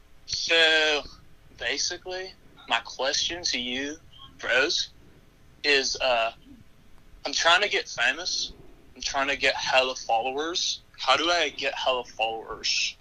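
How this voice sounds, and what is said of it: Put-on British accent. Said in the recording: “in his normal voice ... Was that an accent? ... British accent.”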